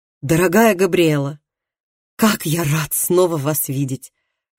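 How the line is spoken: Exclaiming. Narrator (Russian): воскликнул он

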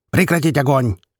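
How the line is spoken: Barked command. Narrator (Russian): рявкнул Молотов

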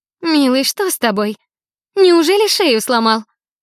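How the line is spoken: Sweet sing-song. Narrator (Russian): Сладким голоском пропела она

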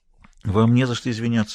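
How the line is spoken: Soft, gentle. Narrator (Russian): мягко сказала Элен

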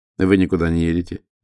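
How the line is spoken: Dry reply. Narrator (Russian): отвечал Романо сухо

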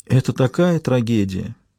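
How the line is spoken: Sighing. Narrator (Russian): вздохнула медсестра

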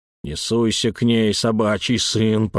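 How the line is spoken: Growling. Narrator (Russian): прорычал Эльм

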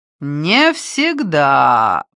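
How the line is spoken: Drawling. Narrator (Russian): протянул он

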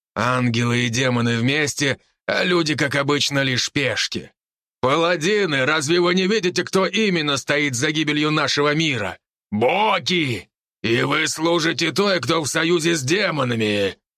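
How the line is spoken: Wolf's growl. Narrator (Russian): прорычал волк

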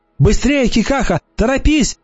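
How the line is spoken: Shouting. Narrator (Russian): закричала она

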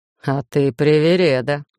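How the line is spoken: Snorting chuckle. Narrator (Russian): хмыкнул викинг

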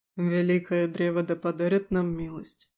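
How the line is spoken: Muffled voice. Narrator (Russian): глухо произнес Аластер

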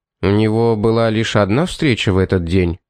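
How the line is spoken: Plain. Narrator (Russian): спросил

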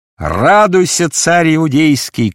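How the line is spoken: Shouting. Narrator (Russian): крикнул он

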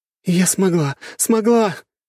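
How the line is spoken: Squealing with joy. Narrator (Russian): визгами радости

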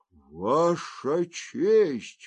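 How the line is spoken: Hoarse. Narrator (Russian): хрипло произнес

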